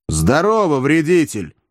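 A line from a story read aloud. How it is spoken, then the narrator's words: Loud angry reply. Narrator (Russian): злобно и громко ответил Иван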